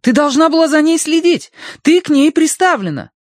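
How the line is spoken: Shrill animal-like wailing. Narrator (Russian): Мэйзри начала подвывать, визгливо, как лесная зверушка

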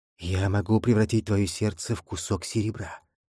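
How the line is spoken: Whisper in ear. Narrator (Russian): прошептал, не пойми кто, на ухо бастарду

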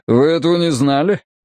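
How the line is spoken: Scoffing grunt. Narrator (Russian): хмыкнул Харди

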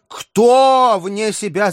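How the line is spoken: Shouting. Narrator (Russian): закричал Перегрин

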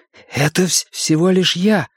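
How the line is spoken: Whispered. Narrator (Russian): прошептал Билл

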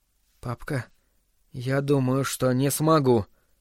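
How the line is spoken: Whispered. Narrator (Russian): прошептал он

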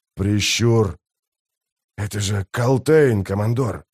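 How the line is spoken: Old man's wheeze. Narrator (Russian): прохрипел старик

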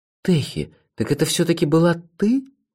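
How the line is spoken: Quiet question. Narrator (Russian): тихо спросил я

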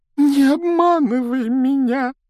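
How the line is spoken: Breathless, tearful. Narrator (Russian): выдохнула Миртл, заливаясь слезами

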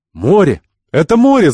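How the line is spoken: Shouting. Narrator (Russian): закричал Ахмед

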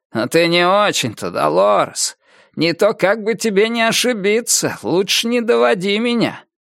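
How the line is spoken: Muttered through teeth. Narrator (Russian): пробурчал сквозь зубы

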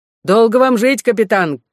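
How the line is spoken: Soldiers shouting. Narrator (Russian): крикнули солдаты

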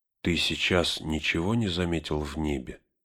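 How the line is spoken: Barely audible whisper. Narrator (Russian): еле слышным шепотом спросил он Гэндальфа

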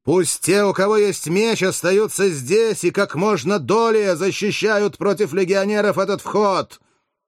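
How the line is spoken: Thunderous shout. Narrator (Russian): Спартак закричал громовым голосом, который покрыл рев и шум стычки

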